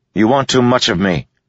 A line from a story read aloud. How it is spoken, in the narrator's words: snapped